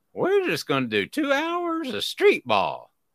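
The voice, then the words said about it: Imitates another person's voice. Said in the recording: “I do a pretty good Jerry Green impression.”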